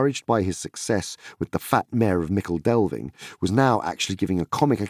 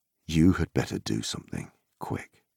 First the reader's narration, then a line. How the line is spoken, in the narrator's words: whispered Strider in his ear